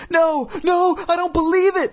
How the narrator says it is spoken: Lindy shrieked, seeing the dummy move

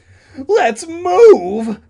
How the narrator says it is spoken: Todd cried

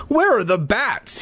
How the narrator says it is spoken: He cried

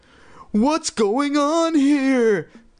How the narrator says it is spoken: Chris cried aloud

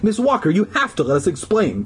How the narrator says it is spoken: I cried shrilly

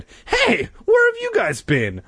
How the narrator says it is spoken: I cried

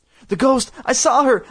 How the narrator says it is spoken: I cried, shaking all over

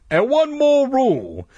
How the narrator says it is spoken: he called out

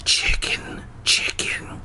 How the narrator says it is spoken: I whispered

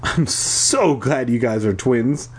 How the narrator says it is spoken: I exclaimed

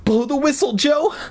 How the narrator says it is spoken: Mindy cried

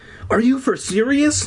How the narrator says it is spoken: She cried

